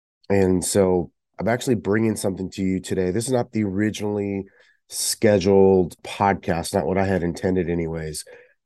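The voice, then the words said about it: Weird-sounding sick voice. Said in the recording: “I sound weird ... I have been sick”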